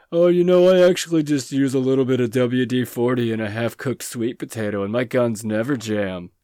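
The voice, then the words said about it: Dumb-sounding imitation of a friend. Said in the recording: “I don't know why I gave you such a dumb voice right there”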